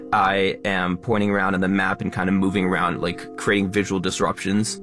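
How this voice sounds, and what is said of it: Fast educational influencer voice. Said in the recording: “I am talking quickly using my educational influencer accent.”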